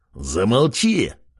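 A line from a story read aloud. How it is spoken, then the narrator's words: Barked. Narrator (Russian): Рявкнул он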